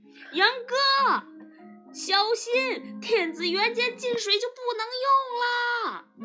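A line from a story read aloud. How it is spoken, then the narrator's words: Shout from inside pocket. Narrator (Chinese): 爸爸在我的口袋里喊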